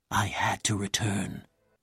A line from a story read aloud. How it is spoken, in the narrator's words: whispered